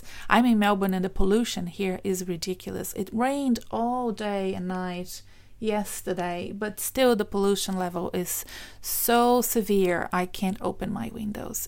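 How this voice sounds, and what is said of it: Strained, irritated throat voice. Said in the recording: “you probably can tell from my voice that I'm struggling with my throat”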